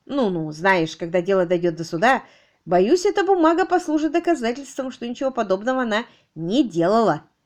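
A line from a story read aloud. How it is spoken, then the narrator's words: Strained, forced out. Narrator (Russian): Кэтрин смогла только выдавить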